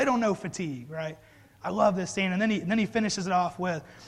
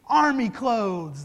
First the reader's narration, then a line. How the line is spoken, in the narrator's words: they yell back